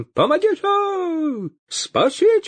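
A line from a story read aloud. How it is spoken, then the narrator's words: Priest wailing, voice unrecognizable. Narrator (Russian): Завопил поп не своим голосом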